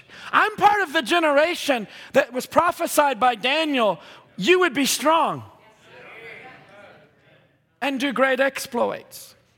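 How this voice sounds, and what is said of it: Raised, loud preaching voice. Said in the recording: “Forgive me for raising my voice.”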